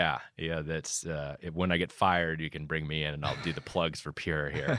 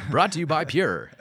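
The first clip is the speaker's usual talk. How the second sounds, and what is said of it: Announcer-style radio voice. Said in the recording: “Some good radio voice there”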